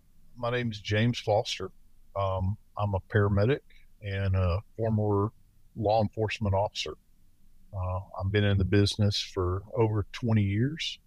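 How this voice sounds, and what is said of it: Southern American accent. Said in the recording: “I'm from the South, as you may detect from my accent.”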